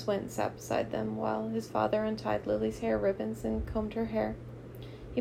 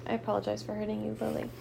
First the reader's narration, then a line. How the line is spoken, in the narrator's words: Jonas mumbled